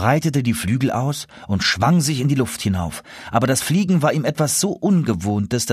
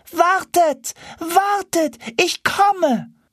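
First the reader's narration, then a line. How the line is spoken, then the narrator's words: Young gander shouting. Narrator (German): schrie der junge Gänserich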